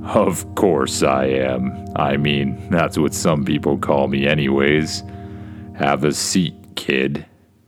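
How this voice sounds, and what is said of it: Deep Santa Claus voice. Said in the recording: “says a deep voice”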